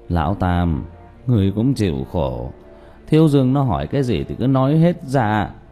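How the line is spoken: Sighing. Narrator (Vietnamese): Diệp Bá thở dài

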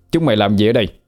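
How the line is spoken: Stern voice. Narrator (Vietnamese): Thiên Phúc nghiêm giọng

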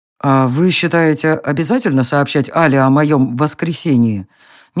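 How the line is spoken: Uncertain question. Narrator (Russian): Неуверенно спросил Реверт

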